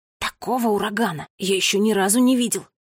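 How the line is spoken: Whisper. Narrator (Russian): прошептал Финн

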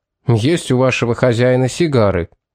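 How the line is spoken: Angry repetition. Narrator (Russian): сердито повторил Томас

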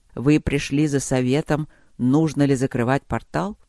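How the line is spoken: Gentle question, old man. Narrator (Russian): мягко поинтересовался старик

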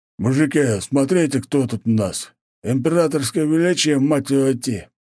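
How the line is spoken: Drunk brute mumbling. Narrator (Russian): промямлил пьяный амбал

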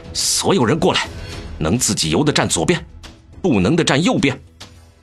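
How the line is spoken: Resolute, teeth gritted. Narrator (Chinese): 江城一咬牙道

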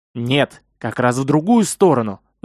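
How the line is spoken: Angry reply to himself. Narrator (Russian): зло ответил он себе же

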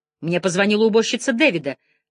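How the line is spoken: Sharp shout. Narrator (Russian): резко выкрикнула она

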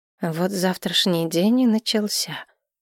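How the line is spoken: Muttered. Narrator (Russian): пробормотала я

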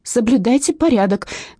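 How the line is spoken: Shouted. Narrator (Russian): крикнула я

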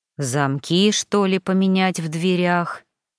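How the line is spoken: Sighing. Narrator (Russian): Вздохнул Гарри

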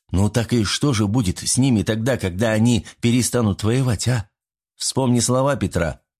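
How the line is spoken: Exclaimed. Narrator (Russian): воскликнул

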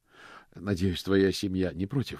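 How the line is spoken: Plain. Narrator (Russian): сказал мокрец

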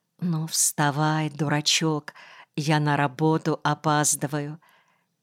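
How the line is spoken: Whisper into ear. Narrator (Russian): она прошептала прямо в ухо

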